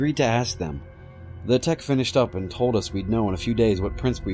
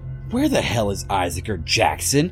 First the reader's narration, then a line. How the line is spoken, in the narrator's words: Clark yelled angrily